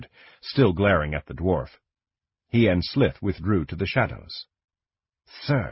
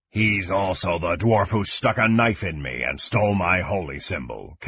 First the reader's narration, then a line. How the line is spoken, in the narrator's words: Kang growled